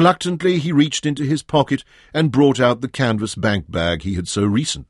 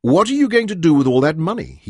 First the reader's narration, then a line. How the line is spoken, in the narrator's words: he asked Manyoro